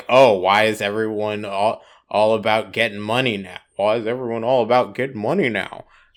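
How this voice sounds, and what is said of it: Imitates another person's voice. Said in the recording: “My Obama impression's been all over the place today.”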